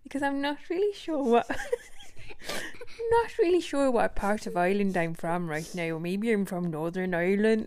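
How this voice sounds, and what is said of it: Weak put-on Irish accent. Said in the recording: “an Irish accent is a little bit like this. Now, I'm not very good at an Irish accent”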